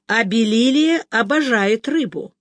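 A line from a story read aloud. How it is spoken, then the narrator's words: Loud. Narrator (Russian): громко произнес Чарли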